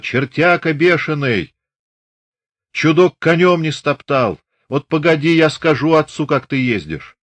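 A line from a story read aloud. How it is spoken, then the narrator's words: Loud distant shout. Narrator (Russian): Аксинья, еще издали голосисто крикнула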